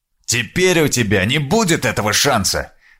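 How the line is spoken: Angry shout. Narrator (Russian): зло крикнул посол

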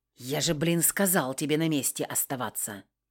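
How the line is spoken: Angry hiss. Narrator (Russian): зло зашипел

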